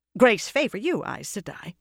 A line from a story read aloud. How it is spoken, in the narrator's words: she said, hastily